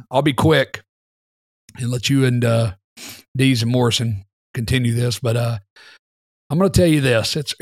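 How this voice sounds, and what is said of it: Hoarse, strained voice. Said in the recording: “losing my voice is starting to hurt again”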